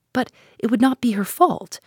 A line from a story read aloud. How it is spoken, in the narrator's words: I cried with rising indignation